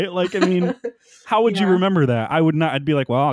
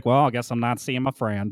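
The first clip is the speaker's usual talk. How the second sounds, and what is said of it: Morgan Freeman-like impression. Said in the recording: “it's a good impression, by the way. ... It's a mix of Cleveland and Morgan Freeman.”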